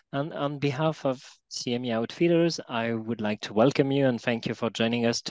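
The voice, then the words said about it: French accent in English. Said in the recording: “I am ... from Paris, France, so please excuse my accent.”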